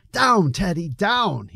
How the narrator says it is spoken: exclaim

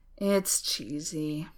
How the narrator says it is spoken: sighed

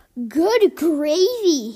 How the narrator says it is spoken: he sputtered

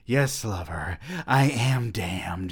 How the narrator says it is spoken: she breathed

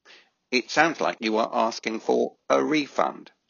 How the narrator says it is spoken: said the voice

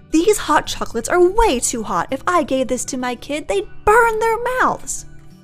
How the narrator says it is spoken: Mom yells

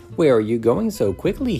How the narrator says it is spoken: he said

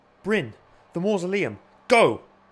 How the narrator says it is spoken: shouted

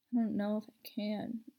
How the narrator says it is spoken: mumbled

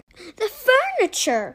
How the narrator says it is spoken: cried

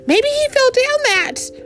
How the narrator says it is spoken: wailed the cat

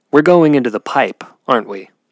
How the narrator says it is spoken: Blackberry replied in an assuring tone

